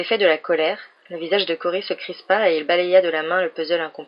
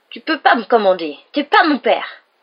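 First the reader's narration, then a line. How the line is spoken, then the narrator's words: Crying out. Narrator (French): s'écria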